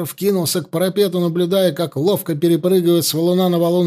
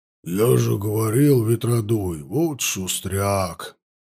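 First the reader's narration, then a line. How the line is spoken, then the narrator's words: Grumbling. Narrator (Russian): проворчал Макарыч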